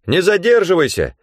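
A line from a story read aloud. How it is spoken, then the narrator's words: Shouted after. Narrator (Russian): крикнул мне вдогонку Ганилон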